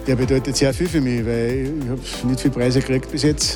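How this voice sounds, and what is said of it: Speaks in regional German dialect. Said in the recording (German): “Er hat aber nicht nur gesprochen im Dialekt”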